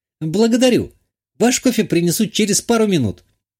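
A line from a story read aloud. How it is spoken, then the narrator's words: Exclaimed. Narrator (Russian): воскликнула продавщица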